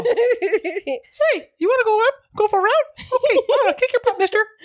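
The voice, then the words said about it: Cartoon Mickey Mouse character voice. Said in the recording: “Mickey Mouse for stealing his voice ... Okay, enough, Mickey.”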